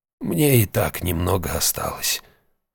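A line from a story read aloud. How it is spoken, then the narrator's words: Creaky voice. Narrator (Russian): скрипучим голосом произнес председатель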